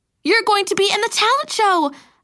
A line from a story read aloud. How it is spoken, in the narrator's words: I exclaimed